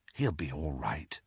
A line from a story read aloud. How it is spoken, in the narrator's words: murmured Ginny